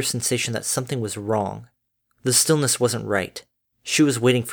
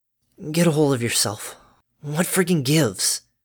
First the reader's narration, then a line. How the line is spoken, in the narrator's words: hoarsely murmured